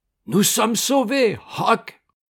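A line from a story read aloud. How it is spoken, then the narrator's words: Sudden exclamation. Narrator (French): s'écria tout à coup Jim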